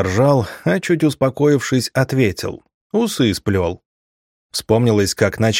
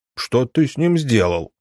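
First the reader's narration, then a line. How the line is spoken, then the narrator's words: Serious angry question. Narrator (Russian): серьезно, зло спросили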